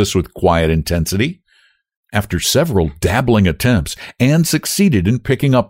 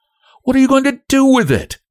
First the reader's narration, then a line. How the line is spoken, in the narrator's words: asked Frances sharply